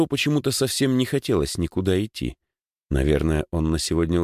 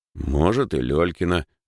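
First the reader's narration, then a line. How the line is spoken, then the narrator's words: Thoughtful. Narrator (Russian): задумчиво произнес Димыч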